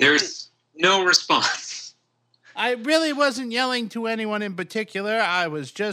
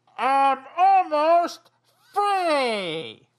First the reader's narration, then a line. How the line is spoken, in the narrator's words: yell out